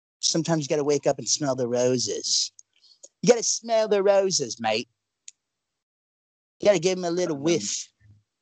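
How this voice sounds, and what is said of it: Put-on British accent, sounds Australian. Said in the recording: “How's my British accent? ... Sounded Australian to me as a native Aussie.”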